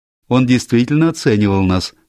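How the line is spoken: Sudden laughter. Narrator (Russian): внезапно рассмеялась Сьюзен

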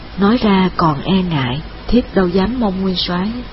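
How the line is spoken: Sighing. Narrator (Vietnamese): Trải Nhi thở dài

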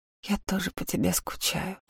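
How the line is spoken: Whispering. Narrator (Russian): прошептала Лика

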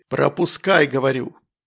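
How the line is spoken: Barked. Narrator (Russian): Рявкнули на здоровяка

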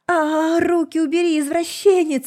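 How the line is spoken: Indignant yell. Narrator (Russian): завопила, возмущенная творящимся беспределом

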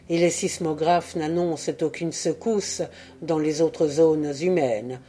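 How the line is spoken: Murmur. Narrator (French): murmura Oural

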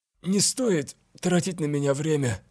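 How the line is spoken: Insistent between painful wheezes. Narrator (Russian): настаивал Вильгельм в перерывах между болезненными хрипами

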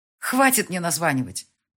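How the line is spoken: Angry shout. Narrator (Russian): прикрикнула она со злостью

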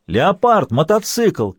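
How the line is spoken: Shouting from a distance. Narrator (Russian): крикнул из-за автомобиля Енисеев

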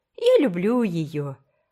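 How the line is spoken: Exclaimed. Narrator (Russian): воскликнула Фейт

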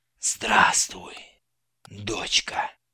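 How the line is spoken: Quiet, ticket inspector. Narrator (Russian): негромко произнес контролер

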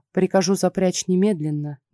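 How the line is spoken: Businesslike tone. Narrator (Russian): фрау Анна деловым тоном ответила

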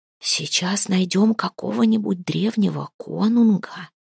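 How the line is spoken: Whispering household members. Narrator (Russian): перешептывались домочадцы за спиной у Хлейны

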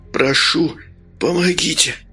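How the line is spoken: Weak, exhausted moan. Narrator (Russian): Простонал, вложив в этот стон остаток сил

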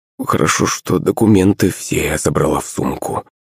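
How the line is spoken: Muttered. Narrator (Russian): пробормотала мама Наташа

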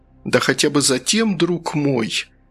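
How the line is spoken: Sad, smiling. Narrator (Russian): Фигаро грустно улыбнулся

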